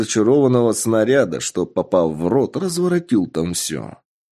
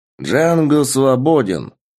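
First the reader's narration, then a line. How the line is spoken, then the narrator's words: Excited exclamation, man. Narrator (Russian): воскликнул мужчина, вспомнивший старый фильм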